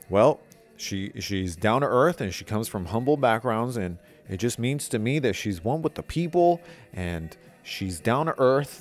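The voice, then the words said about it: Imitates another person's voice. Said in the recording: “I know I'm doing a Barack Obama accent”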